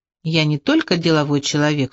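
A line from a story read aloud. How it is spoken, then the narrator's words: Calm steady speech. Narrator (Russian): все так же спокойно говорил Бокс Мокс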